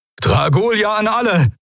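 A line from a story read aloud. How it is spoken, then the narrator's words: Called out. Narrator (German): rief Telios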